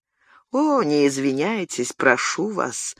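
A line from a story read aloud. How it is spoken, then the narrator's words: Answered dully. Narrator (Russian): глухо отвечал комендант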